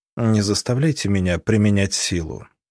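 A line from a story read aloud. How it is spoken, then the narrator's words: Dry, curt advice. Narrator (Russian): сухо посоветовал Христиан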